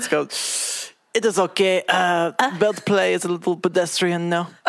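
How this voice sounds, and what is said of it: Put-on French accent. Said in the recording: “That's a great French accent.”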